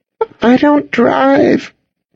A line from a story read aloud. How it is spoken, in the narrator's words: Cassidy said, her voice quivering